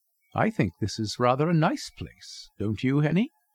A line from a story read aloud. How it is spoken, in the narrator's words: I said